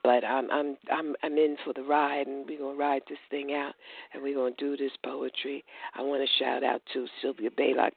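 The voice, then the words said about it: Slightly hoarse voice. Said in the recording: “I'm a little hoarse tonight. I'm like battling this doggone allergy”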